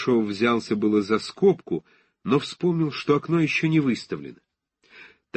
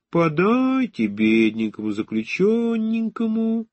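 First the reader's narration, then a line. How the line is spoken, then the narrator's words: Laughing sing-song through glass. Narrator (Russian): прильнула смеющимся свежим лицом к стеклу и говорила нараспев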